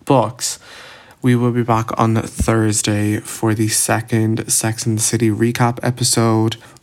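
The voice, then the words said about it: Tired-sounding voice. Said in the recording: “As you can probably hear in my voice, I'm like so tired because I was working all weekend”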